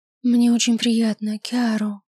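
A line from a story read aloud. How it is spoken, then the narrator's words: Purring. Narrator (Russian): мурлыкнула секретарша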